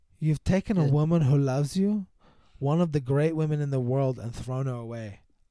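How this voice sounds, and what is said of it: Deliberately bad put-on accent. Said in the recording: “I'm going to do it in a terrible accent too.”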